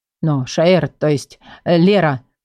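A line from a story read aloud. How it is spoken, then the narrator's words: Mumble. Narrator (Russian): промямлил он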